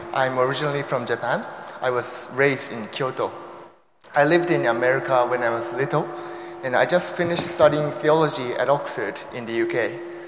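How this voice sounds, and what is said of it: Mixed Japanese, American and British accent. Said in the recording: “I have a mixture of Japanese accent, American accent, British accent, and now I'm working on my Singaporean accent”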